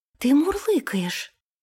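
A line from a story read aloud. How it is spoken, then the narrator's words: Exclaiming. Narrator (Russian): воскликнула она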